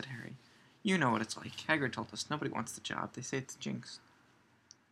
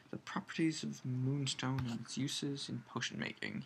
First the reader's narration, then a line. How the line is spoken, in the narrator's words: he muttered